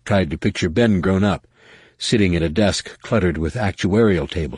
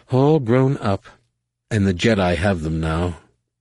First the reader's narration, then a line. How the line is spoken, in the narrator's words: Leia sighed